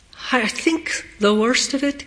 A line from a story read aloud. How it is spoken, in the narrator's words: Kitty said, her voice faltering